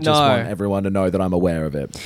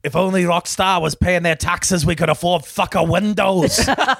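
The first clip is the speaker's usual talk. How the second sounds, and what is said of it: Weak attempt at a put-on accent. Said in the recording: “I'm not good at the accent yet. I'm not good at the accent.”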